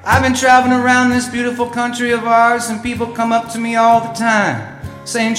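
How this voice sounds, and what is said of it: Mixed Midwestern small-town drawl. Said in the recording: “drawl that you do? It's kind of a mix between a small town, big city, kind of a northerly, southerly, easterly, westerly, stuck in the middle type of a drawl ... how to sound like a folk singing hillbilly from the upper Midwest side”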